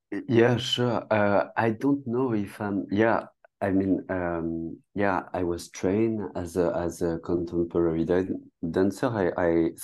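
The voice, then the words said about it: French accent. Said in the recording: “I'm really sorry for my French accent ... a beautiful accent like that”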